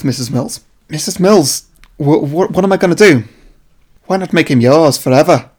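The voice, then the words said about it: Wandering bad Nicole Kidman accent. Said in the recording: “my accent's worse than yours ... That wandered a bit there. I don't know where that went. ... What is this Vic Reeves version of Nicole Kidman you dreamed up?”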